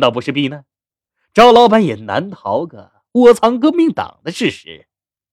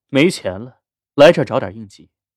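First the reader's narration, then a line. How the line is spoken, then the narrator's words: Cool detached voice. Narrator (Chinese): 林泉的声音清冷的响起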